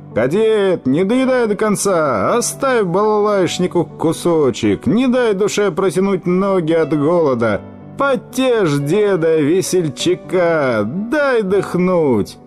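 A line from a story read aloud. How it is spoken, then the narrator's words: Old man shouting. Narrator (Russian): Дед кричал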